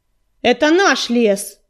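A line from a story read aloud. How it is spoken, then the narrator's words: Loud shout. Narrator (Russian): громко крикнул Огнезвезд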